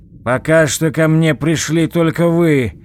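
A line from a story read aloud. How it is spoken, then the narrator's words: Loud objection. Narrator (Russian): громко возразил Алексей Иванович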